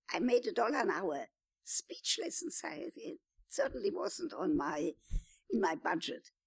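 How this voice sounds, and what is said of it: Distinctive accent. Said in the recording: “She had to take a speech coach to learn my accent.”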